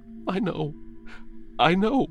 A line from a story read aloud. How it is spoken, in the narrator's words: Simon cries